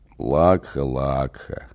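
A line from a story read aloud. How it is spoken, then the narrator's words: Barely audible creak. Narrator (Russian): едва слышно проскрипел Авелир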